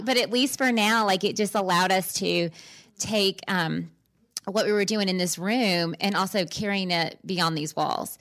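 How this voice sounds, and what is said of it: Hoarse voice. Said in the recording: “I'm hoarse right now.”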